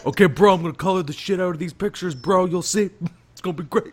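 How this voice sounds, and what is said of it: Over-the-top douchey bro voice. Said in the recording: “that voice I do for Zack Snyder is literally just the douche from Sausage Party ... my weird, over the top, Flanderized impression of Zack Snyder ... that sort of bro Greedo voice”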